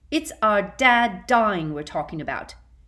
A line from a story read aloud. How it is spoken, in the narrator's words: yelled George